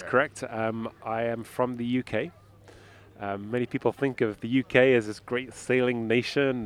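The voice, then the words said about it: Non-American, British-sounding accent. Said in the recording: “Your accent gives away that you are not from San Francisco originally.”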